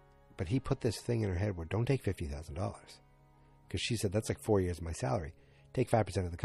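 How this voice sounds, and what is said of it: Usual voice. Nothing is said of it.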